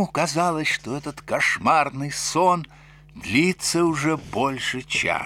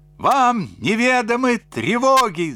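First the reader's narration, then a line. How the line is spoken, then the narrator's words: Shrieking. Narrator (Russian): завопил сморчок Фима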